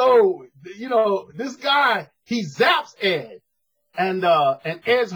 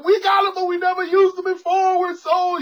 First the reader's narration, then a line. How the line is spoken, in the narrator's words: the people yelling